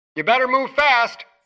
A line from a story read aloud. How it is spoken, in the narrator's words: Frederico called out on the sound system